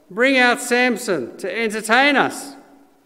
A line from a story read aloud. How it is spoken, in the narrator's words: While they were in high spirits, they shouted